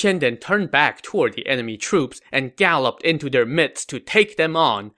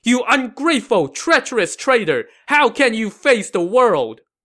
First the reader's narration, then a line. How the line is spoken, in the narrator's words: He shouted back